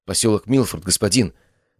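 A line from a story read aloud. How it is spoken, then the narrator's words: Whispered. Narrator (Russian): прошептал помощник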